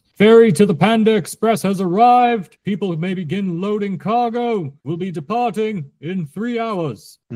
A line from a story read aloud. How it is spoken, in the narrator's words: a call that shouts